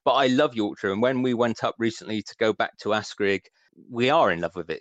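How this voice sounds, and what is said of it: West Country English accent. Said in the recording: “My accent, my West Country accent ... I just never got rid of the West Country twang”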